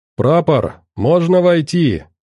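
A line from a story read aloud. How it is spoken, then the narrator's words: Shouting. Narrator (Russian): крикнул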